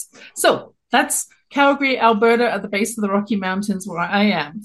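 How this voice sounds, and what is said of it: English accent from London. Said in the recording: “You can tell from my accent, I'm not born in Canada, originally born in London, England.”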